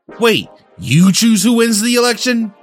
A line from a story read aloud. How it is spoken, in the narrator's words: Dib screamed